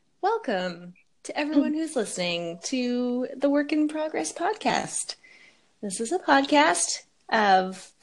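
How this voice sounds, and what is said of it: Smooth late-night radio voice. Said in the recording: “radio voice ... You sound like Delilah ... late night”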